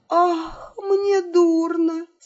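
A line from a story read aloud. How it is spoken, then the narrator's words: Moan. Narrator (Russian): она простонав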